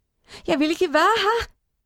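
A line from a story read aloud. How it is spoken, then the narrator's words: Crying. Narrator (Norwegian): gråt hun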